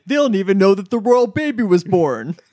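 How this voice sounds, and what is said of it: Imitates another person's voice. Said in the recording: “that's my Kristen Cavallari impression ... I think you sound just like her, actually.”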